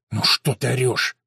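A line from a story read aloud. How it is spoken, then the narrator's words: Hissing. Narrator (Russian): зашипел он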